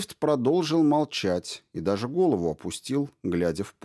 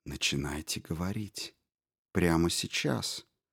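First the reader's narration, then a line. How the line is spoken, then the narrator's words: Soft, insinuating. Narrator (Russian): советую очень вкрадчиво и тихо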